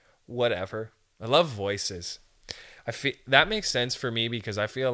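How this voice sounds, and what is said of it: Usual voice. Nothing is said of it.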